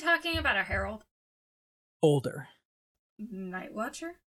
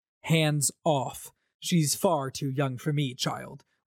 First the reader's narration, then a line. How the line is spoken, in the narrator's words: Wit said